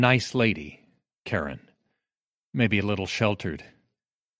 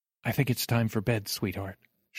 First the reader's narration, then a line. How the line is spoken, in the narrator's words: she says softly